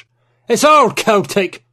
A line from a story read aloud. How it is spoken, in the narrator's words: Penhallow exclaimed